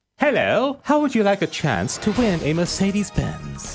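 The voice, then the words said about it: Put-on posh accent. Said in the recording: “What's up with the accent? ... Just putting on a posh accent”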